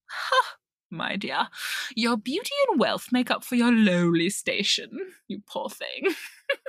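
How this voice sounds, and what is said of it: Put-on British accent. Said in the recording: “I revert into a British accent for this lady”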